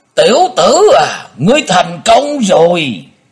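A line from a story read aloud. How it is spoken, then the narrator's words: Resounding shout. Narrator (Vietnamese): Tiếng thét này vang dội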